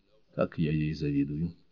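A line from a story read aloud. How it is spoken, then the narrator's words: Low voice. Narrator (Russian): Джейн Шелби проговорила вполголоса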